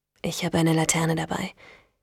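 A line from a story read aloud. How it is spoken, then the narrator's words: Calm reply. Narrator (German): erwiderte Frank ruhig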